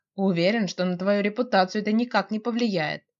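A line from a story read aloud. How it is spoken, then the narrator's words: Calm reply. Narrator (Russian): спокойно отвечает парень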